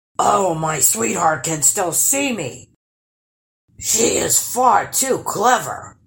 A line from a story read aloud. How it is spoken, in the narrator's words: growled the troll